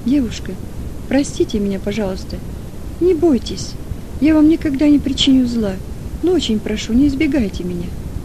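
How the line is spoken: Young man, changed tender voice. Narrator (Russian): парень каким-то другим голосом, чем в прошлый раз, ласково сказал

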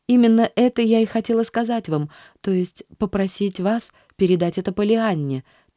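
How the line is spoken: Hurried breathless girl. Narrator (Russian): торопливо и несвязно заговорила девушка, не переводя дыхание

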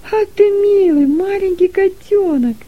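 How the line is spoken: Joyful exclamation. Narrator (Russian): радостно воскликнула Дилека

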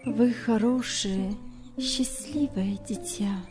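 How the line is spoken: Quiet trembling voice. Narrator (Russian): сказала она тихим дрожащим голосом

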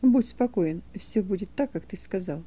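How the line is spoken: Plain. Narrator (Russian): ответил воин

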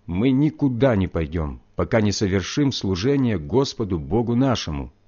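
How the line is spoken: Plain. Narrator (Russian): ответил я

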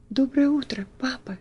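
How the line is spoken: Timid. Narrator (Russian): робко проговорила она

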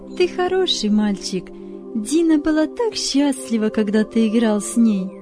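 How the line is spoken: Mother's praise. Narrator (Russian): похвалила Давида мама

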